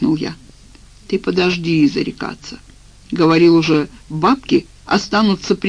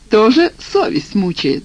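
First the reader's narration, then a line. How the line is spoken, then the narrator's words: Chuckle. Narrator (Russian): хохотнул абонент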